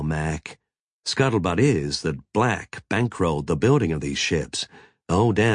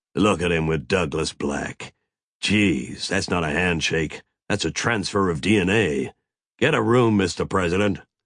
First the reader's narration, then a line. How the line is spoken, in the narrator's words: Mac grunted